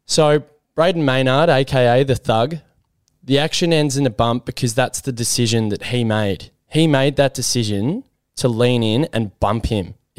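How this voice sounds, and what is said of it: Emotional, upset voice. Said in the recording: “you can probably hear it in my voice. I'm very emotional and I'm very upset”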